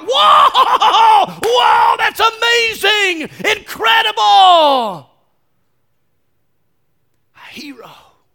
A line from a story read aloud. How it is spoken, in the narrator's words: all those soldiers started to shout